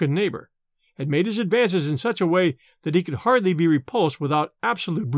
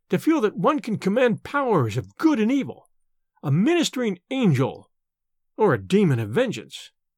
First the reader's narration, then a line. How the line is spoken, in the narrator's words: cried